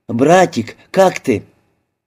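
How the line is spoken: Joyful exclamation. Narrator (Russian): ее лицо просветлело, и она воскликнула

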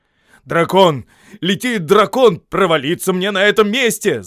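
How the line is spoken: Shout. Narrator (Russian): закричал он

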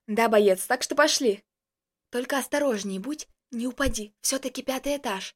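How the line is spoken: Whisper. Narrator (Russian): прошептала она

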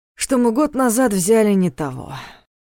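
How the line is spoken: Gloomy muttering. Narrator (Russian): мрачно пробормотал Дементьев

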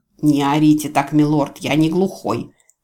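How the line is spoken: Grumbling. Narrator (Russian): проворчал Ниал

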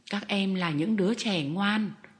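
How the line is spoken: Plain. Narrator (Vietnamese): ông nói

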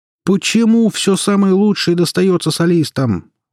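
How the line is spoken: High-pitched indignation. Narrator (Russian): Высоким голосом возмутился Артем

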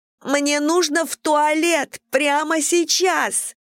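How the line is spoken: Shouted. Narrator (Russian): крикнула

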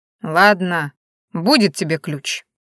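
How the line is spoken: Grudging grumble. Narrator (Russian): я сдалась и проворчала

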